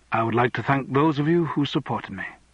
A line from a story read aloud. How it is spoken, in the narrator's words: Andrew said quietly